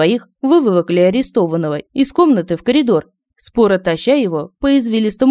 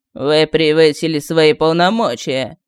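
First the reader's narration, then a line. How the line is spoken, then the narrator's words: Bored voice. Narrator (Russian): скучным голосом сказал серый офицер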